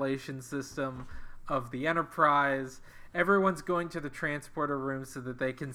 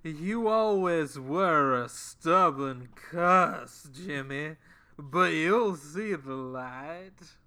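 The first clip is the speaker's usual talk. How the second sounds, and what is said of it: Put-on Southern accent imitating McCoy. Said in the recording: “His accent had moved considerably south of the Mason-Dixon line, almost to his Georgia boyhood... attempt to do southern accents like McCoy does”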